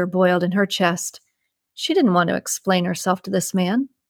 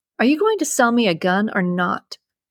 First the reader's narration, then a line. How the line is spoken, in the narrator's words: asked sharply